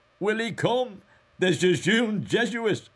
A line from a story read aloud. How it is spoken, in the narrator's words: laughing with delight, cried